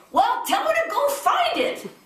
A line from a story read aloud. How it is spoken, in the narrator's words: One little boy, on being told that his mom had lost the baby, shouted